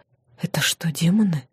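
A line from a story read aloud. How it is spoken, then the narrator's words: Whispered question. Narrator (Russian): спросила почему-то шепотом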